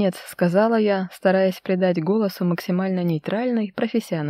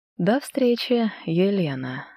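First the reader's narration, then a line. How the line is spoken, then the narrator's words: Soft. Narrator (Russian): ответил он мягко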